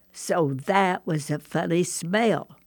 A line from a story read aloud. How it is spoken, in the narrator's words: I said